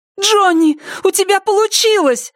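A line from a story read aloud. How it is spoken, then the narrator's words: Shout. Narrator (Russian): закричала Сара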